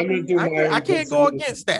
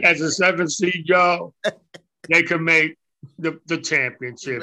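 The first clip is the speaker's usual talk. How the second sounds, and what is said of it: Imitates another person's voice. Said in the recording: “my impression of Razor Ramon”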